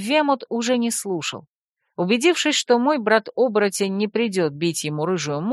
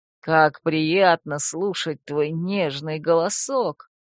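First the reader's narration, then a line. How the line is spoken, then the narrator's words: Purring. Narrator (Russian): промурлыкал он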